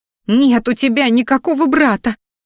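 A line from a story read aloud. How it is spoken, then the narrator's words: Muffled sob. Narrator (Russian): всхлипнула Ди, закрывая рот рукой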